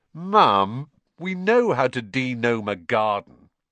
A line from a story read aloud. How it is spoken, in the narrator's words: George groaned